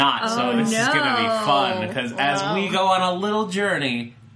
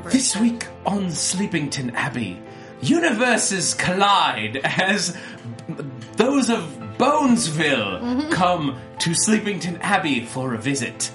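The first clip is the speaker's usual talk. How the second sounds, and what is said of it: Put-on British accent. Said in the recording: “You have to say things that are very scandalous, but in a British accent.”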